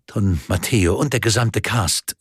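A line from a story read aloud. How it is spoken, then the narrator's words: Plain. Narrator (German): sagte dann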